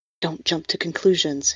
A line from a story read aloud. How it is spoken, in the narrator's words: his ghost whispered